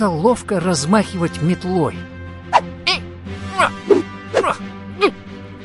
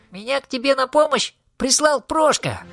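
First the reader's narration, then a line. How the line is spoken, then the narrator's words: Human voice. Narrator (Russian): Он человеческим голосом сказал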